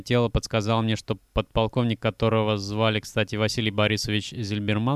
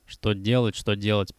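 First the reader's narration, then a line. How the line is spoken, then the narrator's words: Grumbled. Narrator (Russian): проворчал Вудсток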